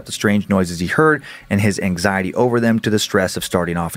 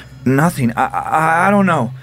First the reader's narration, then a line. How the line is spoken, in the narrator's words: Alex gasped